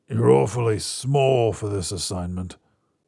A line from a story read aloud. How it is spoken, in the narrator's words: growls